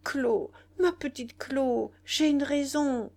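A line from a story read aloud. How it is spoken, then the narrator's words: Stammering. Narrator (French): Il bégayait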